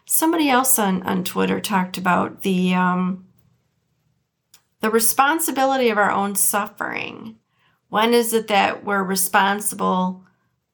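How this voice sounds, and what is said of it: Strong Midwest accent. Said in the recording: “I say that in a really Midwest accent, don't I? ... Shout out to Detroit. That's the way we say it.”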